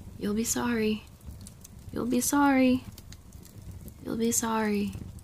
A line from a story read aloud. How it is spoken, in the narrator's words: She was muttering